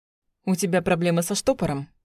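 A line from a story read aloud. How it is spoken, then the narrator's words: Smirking. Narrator (Russian): хмыкнул Власов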